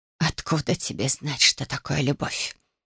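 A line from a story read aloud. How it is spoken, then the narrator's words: Hiss. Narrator (Russian): прошипела княжна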